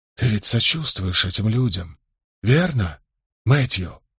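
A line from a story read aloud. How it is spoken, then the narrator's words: Low voice after pause. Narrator (Russian): помолчав немного, спросил вполголоса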